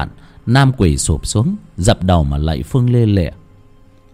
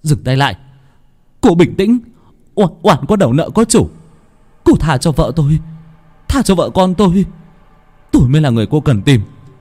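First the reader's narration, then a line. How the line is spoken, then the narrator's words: Man shouting. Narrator (Vietnamese): Nam ... hét lên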